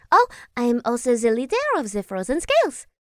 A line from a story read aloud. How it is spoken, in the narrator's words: Naomi said happily